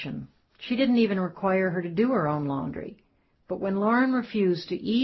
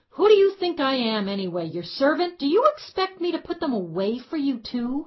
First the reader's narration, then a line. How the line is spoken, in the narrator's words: screamed